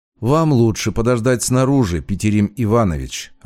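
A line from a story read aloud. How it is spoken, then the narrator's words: Even, flat tone. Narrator (Russian): ровным тоном повторила девушка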